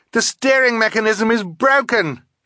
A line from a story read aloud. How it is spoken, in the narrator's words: she yelled